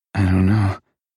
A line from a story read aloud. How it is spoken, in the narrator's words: breathed